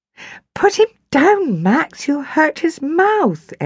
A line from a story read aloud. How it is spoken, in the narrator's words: Ellie cried